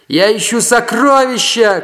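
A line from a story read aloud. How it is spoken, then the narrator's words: Shouted. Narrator (Russian): крикнул Сантьяго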